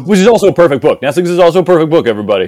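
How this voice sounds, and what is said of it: Deliberately pompous, self-important tone. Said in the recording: “that's me sounding like a pompous ass on purpose”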